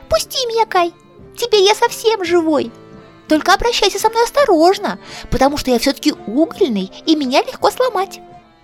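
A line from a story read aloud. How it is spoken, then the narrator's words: Squeak. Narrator (Russian): он пропищал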